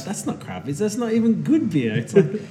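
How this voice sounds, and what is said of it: Weird attempted Scottish accent. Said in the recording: “I'm glad you didn't try the accent there. ... it did come out like some kind of weird. ... Dutch. ... Scotty meets Willy.”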